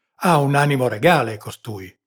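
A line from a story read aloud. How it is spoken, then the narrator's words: Impulsive exclamation. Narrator (Italian): esclamò il capitano d'impulso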